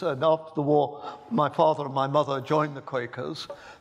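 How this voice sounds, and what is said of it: English accent. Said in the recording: “as you can tell from my accent, I was born in England. In fact, I was born in Birmingham”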